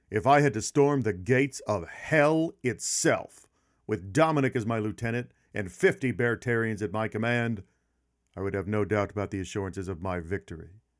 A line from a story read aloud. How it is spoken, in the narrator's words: in the middle of the fight, actually yells out